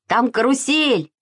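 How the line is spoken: Shouted. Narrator (Russian): закричал Саша

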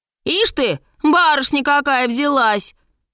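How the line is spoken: Rude reply. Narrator (Russian): грубо ответила старшая дочь

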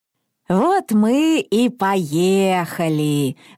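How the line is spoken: Joyful old woman. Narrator (Russian): радостно сказала бабушка

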